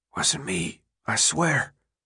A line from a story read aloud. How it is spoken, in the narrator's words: Albie murmured